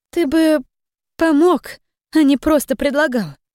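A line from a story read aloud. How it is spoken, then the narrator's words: Uncertain. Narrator (Russian): произнесла неуверенно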